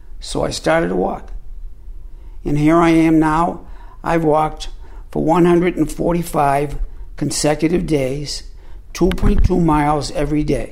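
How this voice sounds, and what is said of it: Squeaky elderly male voice. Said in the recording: “a 78-year-old, bent-over old man with a squeaky voice.”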